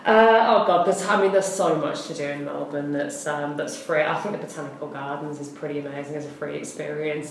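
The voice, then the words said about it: British accent. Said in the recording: “I'm from the UK, if the accent didn't give that away”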